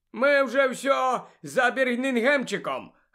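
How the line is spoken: Joyful announcement. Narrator (Ukrainian): радісно повідомив Стен

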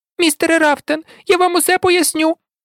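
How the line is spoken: Squeak. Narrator (Ukrainian): пропищав Гай

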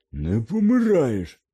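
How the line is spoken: Barked, pale with fear. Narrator (Ukrainian): гаркнув сполотнілий Гегрід

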